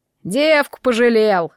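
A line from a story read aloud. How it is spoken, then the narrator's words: Snort. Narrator (Russian): хмыкнул Соловей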